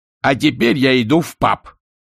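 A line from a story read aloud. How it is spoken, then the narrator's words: Barked. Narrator (Russian): рявкнул Альберт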